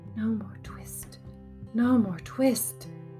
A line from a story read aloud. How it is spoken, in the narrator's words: the poor old tailor was very ill with fever, tossing and turning in his four-post bed, and still in his dreams he mumbled